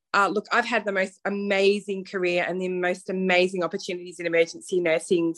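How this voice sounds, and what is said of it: Australian accent. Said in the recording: “probably people can hear from my accent, I'm not from the USA, so I am from Melbourne, Australia.”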